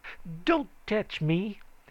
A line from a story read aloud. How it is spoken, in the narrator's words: he said fiercely